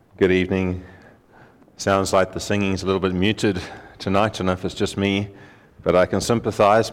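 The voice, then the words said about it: Strained, tired voice. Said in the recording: “My voice has been a little bit under strain today ... I had a bad night rest-wise, and I think that sometimes affects my voice ... before I fade”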